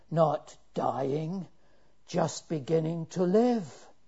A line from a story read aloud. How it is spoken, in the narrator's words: the old man in the corner responded with the best gasp he could get